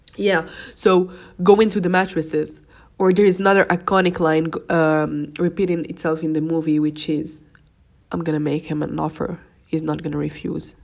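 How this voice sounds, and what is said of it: Congested voice from a cold. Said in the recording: “I think I've got a cold, because my voice tried to get in, and I'm snoozing a little bit.”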